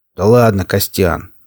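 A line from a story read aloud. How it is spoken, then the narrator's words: Good-natured deep voice. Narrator (Russian): добродушно пробасил Пригоршня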